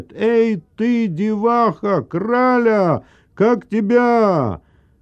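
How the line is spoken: Shouted after someone. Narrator (Russian): Сам не зная зачем, он крикнул ей вслед

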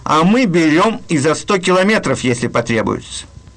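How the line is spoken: Cheerful remark. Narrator (Russian): пограничники ему весело заметили

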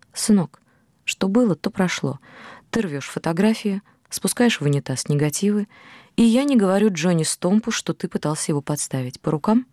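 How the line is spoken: Soft Oklahoma drawl. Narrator (Russian): мягко, акцентируя свой оклахомский акцент, сказал

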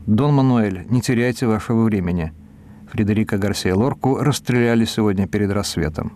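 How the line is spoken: Calm. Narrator (Russian): Я сказал спокойно

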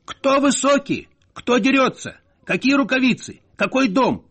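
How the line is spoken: Embarrassed, offended shouting. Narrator (Russian): кричал Надельсон, смущенный и обиженный

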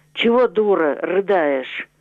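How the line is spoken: Menacing. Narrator (Russian): Синявский сказал грозно

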